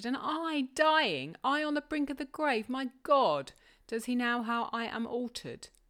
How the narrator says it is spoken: she cried, confounded

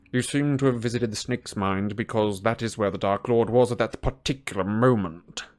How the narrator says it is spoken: snarled Snape

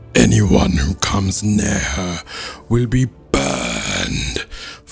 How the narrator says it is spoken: Fire roared again

